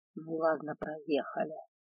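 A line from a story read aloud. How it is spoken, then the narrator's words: Displeased dragon mutter. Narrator (Russian): недовольно пробормотал дракон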